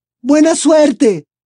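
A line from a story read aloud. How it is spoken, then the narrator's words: Distant shout from stands. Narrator (Spanish): le gritó alguien desde las gradas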